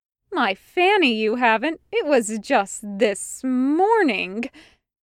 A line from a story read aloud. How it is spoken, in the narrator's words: Mirian exclaimed, mock outrage in her voice